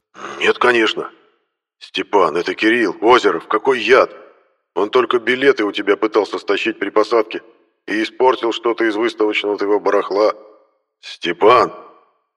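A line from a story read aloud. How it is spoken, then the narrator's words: Thundered. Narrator (Russian): Прогремел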